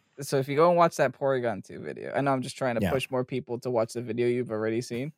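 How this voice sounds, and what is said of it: Northeastern US, New York/New Jersey accent. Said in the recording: “my funny Northeastern accent adds to the comedy ... Like when the New Yorker kind of comes out there. Yeah. Like when the Jersey comes to play.”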